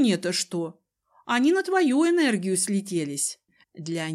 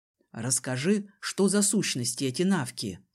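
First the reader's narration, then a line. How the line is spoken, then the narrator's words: Quiet. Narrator (Russian): Сказал он тихо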